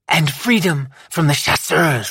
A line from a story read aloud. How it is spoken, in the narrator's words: Lyanna spat